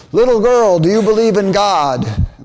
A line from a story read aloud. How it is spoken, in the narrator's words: Fosdick, who was only a passerby watching from below, called out to the girl